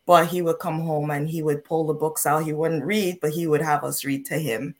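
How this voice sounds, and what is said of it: Caribbean accent. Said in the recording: “I'm Caribbean, if you haven't picked up on the accent yet”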